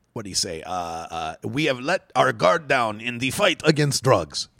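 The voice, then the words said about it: Bad put-on French accent. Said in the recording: “that's a terrible French accent”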